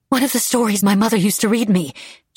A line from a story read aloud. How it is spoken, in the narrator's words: she said breathlessly